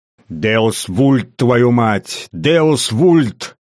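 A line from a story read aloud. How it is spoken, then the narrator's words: Growling. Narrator (Russian): прорычал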